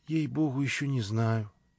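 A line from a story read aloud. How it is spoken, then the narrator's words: Quiet. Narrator (Russian): тихо отвечала она мне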